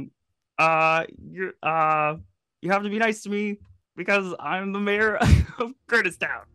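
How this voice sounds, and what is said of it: Kermit-like impression of the host. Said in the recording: “my impression of you ... Is this a Kermit? It's a Kermit impression?”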